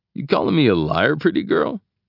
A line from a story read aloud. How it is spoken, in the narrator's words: She sniffs, giving a clogged little giggle sound